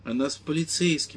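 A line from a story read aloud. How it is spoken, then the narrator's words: Plain. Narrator (Russian): ответил мисс Феллоус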